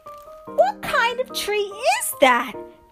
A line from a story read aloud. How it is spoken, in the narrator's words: they shrieked